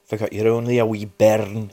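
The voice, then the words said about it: Bad put-on Scottish accent. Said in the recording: “that was my worst Scottish accent in the world”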